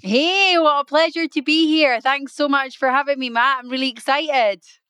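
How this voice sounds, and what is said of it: British accent. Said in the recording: “live from the UK ... I don't speak to people with your accent very often ... I love your accent”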